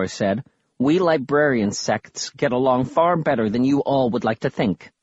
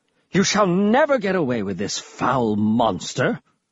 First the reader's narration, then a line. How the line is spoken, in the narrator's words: Prince Riker suddenly exclaimed